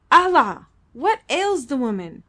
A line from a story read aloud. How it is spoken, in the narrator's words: exclaimed Mahmat angrily